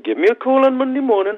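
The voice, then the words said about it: Put-on Geordie accent. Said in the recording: “that's my best Geordie accent. ... It was good.”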